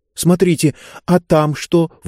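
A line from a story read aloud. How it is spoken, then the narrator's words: Sudden exclamation. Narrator (Russian): вдруг воскликнула Занна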